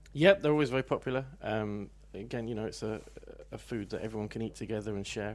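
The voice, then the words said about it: Non-local English accent. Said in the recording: “I noticed by the accent, you're not local.”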